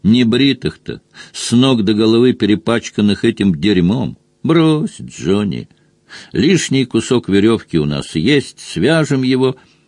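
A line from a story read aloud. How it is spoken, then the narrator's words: Categorical command. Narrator (Russian): Он категорическим тоном отдал приказ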